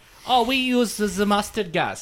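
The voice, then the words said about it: Put-on German accent. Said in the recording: “Sorry, that's my best German impersonation.”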